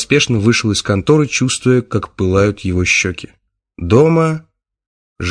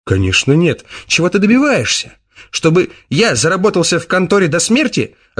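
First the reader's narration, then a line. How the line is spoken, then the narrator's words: Snapping retort. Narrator (Russian): огрызнулся он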